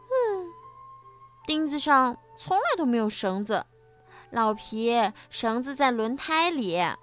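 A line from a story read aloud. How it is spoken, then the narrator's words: Sighing. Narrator (Chinese): 小点子叹了一口气说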